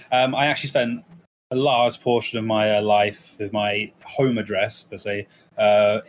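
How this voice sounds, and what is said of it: English East Midlands accent. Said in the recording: “I'm from England, if you can't tell by the accent. ... a town or city in the sort of East Midlands of England, so I'm very central. I'm very generic accented”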